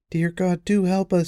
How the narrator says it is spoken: she cried

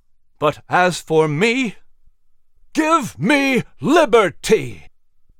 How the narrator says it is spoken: he cried, belting out each syllable with a roar and straining

